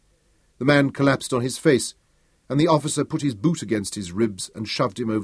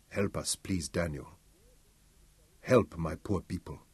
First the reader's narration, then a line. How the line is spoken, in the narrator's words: Victor Umeru said quietly